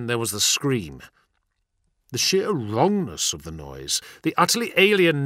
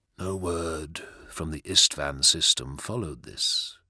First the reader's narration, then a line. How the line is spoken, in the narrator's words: said Mortarion quietly